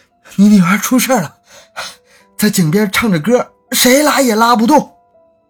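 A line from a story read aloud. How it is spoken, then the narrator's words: Breathless. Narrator (Chinese): 连气都来不及喘上一口，就说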